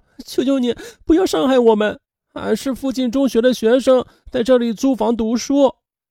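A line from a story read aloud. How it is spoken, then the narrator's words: Sobbing pleading girl. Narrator (Chinese): 女孩泣不成声的还哀求他说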